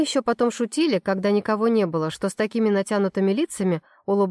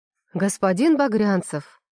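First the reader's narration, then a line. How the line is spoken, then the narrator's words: Solemn proclamation. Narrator (Russian): Торжественно вещает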